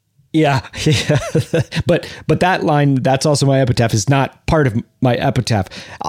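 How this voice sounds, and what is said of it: American accent. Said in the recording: “Why do I have an American accent?”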